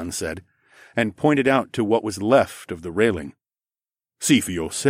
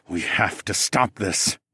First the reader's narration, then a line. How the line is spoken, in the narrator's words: I said through gritted teeth